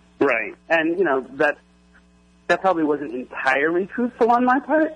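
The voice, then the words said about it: Voice cracking with emotion. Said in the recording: “my voice cracking there”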